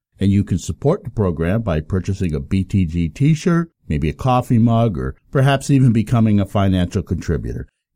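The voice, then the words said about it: Deep, off-sounding voice from cold. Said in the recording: “I've been battling a bit of a cold in the last few days, and as a result, my voice is obviously a bit off ... my sweet bass ... I'm digging the bass right now.”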